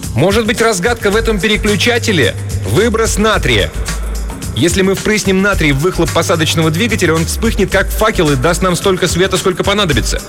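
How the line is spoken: Shouted, female. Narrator (Russian): Тесса крикнула

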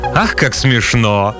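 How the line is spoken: Cynical unabashed laughter, small lizard. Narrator (Russian): маленькая ящерица, несколько склонная к цинизму, беззастенчиво расхохоталась

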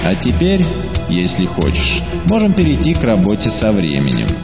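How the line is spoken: Plain. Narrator (Russian): сказал Чан

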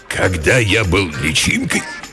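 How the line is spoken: Hoarse. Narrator (Russian): хрипло начал родитель

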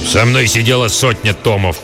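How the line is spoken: Old man growling. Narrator (Russian): прорычал старый

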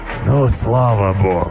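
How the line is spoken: Joyful exhale, beast. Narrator (Russian): Радостно, как мне показалось, выдохнул зверь

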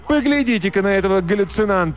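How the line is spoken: Shouted. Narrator (Russian): кричала другая

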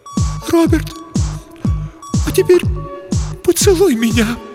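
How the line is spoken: On the verge of sobbing. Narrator (Russian): произнесла Елена, едва не рыдая

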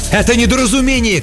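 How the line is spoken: Shouting. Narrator (Russian): кричал Михаил

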